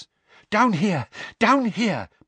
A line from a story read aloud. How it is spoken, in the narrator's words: panted Mr